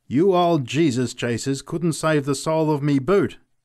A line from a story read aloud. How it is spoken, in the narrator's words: he cried